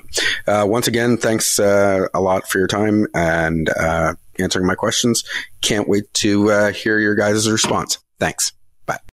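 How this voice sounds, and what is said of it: Canadian accent. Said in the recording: “Always love hearing from our Canadian brothers and sisters. How do we know? Oh, come on. You heard his accent.”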